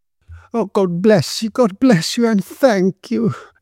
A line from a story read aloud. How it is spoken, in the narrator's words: she exclaimed